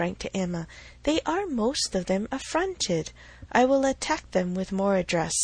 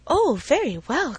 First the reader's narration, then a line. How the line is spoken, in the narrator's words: cried Miss Bates